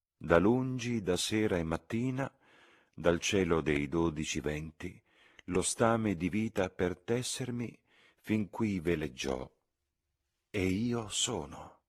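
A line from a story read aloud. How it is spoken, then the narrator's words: Old man reciting, ordinary voice. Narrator (Italian): Con la sua voce normale, tanto che Lucy quasi non si accorse che stava citando dei versi, il vecchio disse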